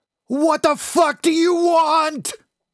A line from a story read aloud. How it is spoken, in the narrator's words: He screamed